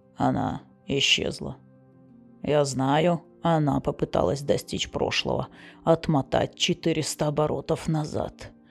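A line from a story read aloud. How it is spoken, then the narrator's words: Dull, muffled. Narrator (Russian): глухо сказал Флар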